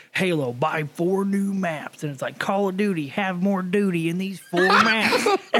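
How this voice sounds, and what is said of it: Put-on Southern US accent. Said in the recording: “Why everybody got a fucking southern accent? ... All southern.”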